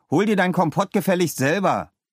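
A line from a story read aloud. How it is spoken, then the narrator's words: Calling out. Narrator (German): rief Leo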